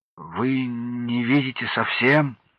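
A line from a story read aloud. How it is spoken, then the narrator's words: Stammering question. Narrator (Russian): Он, запинаясь, спросил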